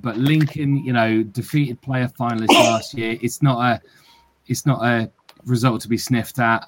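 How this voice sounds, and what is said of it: Lincolnshire English accent. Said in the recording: “I'm from Lincolnshire originally, as my strange accent will attest to”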